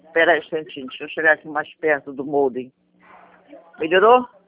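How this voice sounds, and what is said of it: Distinctive regional accent. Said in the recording (Portuguese): “esse sotaque me encanta, sabia? ... Juro, sou apaixonada por esse sotaque.”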